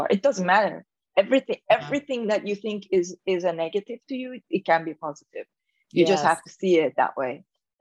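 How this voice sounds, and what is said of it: Persian accent in English. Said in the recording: “my accent ... her accent, look at her Persian accent ... you might want to practice losing your accent”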